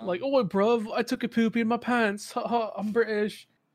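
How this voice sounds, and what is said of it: Deliberately bad British accent. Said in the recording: “I love doing British accents, but I love doing shitty British accents ... shitty British accents”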